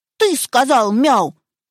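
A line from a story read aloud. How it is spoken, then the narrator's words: Stern question, puppy. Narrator (Russian): строго спросил его щенок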